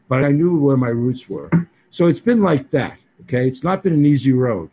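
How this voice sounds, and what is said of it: Boston accent. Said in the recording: “I'm the guy from Hawaii with this Boston accent.”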